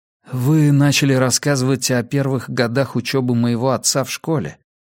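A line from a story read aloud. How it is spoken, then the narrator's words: Gentle. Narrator (Russian): мягко напомнил я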